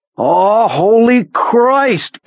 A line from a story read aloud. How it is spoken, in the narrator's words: Pete nearly screamed